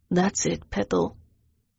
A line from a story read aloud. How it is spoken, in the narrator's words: he murmured